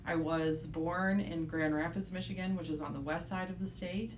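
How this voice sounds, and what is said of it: Michigan accent. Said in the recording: “You might be able to tell by my accent that I am uh, from Michigan”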